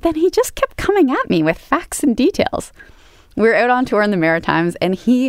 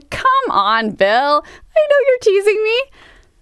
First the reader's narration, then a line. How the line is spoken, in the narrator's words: guffawed, I laughed, I whooped, I said